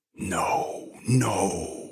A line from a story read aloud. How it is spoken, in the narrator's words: whispered Daphne